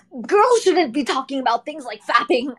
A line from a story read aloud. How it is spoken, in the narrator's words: I cried out